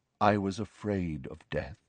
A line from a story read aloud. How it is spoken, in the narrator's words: said Nick softly